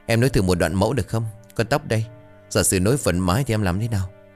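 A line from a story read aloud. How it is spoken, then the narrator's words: Soft laugh. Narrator (Vietnamese): bật cười khẽ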